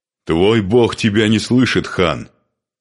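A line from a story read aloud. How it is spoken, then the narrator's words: Shout, then laughter. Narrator (Russian): крикнул Духарев и захохотал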